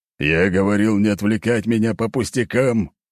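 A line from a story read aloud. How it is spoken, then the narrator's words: Old man's growl. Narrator (Russian): рыкнул старик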